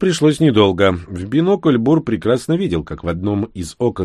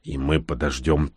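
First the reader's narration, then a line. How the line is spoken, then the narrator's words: Quiet. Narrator (Russian): тихо произнес Всеволод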